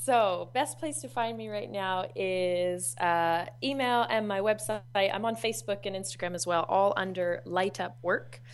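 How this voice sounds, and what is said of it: Canadian accent, slightly Australian-sounding. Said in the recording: “this Canadian person with an accent that's kind of Canadian, who sounds a bit Australian when she says mate”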